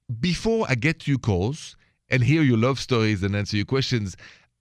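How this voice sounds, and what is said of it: French accent. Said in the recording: “the accent is French”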